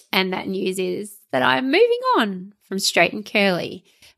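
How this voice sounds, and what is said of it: Forced perky, upbeat voice. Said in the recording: “I'm saying this in a very perky voice, but I don't feel perky about it.”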